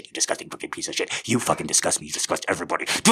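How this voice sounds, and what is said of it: Menacing, angry, scary voice. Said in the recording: “I'll do that through this voice. You think this voice is scary? It gets fucking scary”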